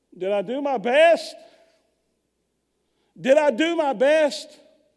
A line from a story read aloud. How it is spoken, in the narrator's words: he would come to and scream